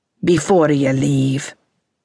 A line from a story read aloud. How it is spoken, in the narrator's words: he said, his voice nearly growling